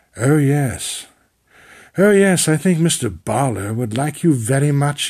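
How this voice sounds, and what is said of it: Affected, pretentious British accent. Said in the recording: “mumbling by in this affected British accent ... my template for his voice is pretension”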